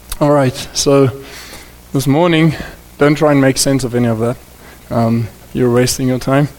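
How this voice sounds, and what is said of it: Voice still rough from illness. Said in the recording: “Excuse my voice. I'm still recovering a little bit from a flu”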